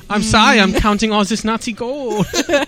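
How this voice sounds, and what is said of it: Put-on German accent. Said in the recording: “Your Switzerland sounds really German. ... they sound German.”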